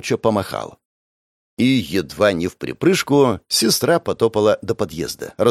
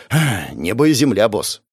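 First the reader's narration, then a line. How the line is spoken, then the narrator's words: Sighing. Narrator (Russian): вздохнул Даниэль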